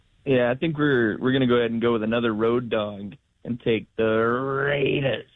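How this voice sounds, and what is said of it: Imitates another person's voice. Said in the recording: “Chris Berman nails it every single time. I was trying to do my best impression there.”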